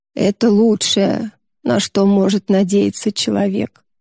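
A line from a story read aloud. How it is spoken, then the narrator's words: Muttering. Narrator (Russian): пробормотала Юдора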